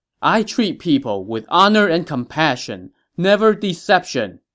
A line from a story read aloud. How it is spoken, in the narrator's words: he shouted to Ma Chao